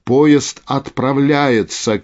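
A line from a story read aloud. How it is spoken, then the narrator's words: Shouted, gnome. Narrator (Russian): крикнул гном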